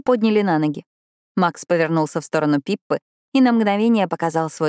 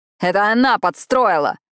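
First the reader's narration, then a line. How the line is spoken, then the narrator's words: Yelling. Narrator (Russian): орал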